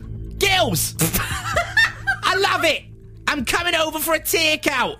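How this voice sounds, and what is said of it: Essex accent drifting into Newcastle. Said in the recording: “my brilliant Gemma Collins impression ... It went Newcastle in the end ... Started Essex, ended in Newcastle.”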